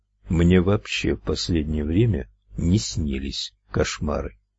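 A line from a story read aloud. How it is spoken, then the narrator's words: Muffled, hollow. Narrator (Russian): глухо ответил он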